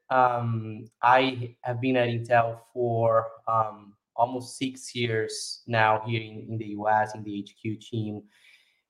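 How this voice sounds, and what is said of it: Brazilian Portuguese accent in English. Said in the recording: “I'm Brazilian, that's why the accent.”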